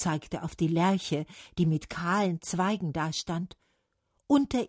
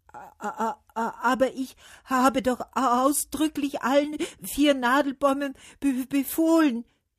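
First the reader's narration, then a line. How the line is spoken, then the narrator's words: Stammering. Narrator (German): stotterte der Wind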